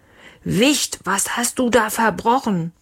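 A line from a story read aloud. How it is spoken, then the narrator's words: Roaring. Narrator (German): Leons Papa brüllte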